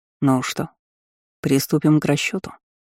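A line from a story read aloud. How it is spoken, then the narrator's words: Cold smirking. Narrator (Russian): холодно усмехнулся Лемар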